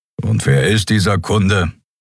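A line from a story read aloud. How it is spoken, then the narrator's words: Grumbling. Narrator (German): brummte Keru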